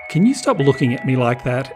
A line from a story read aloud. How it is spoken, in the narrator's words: Emerald said nervously